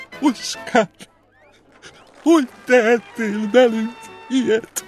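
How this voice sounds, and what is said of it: Trembling, tearful woman's voice. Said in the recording (Hungarian): “remegő hangon”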